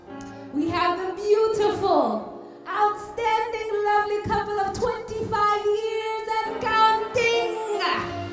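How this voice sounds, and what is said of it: Put-on Trinidadian accent. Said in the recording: “Let me get my Trini accent.”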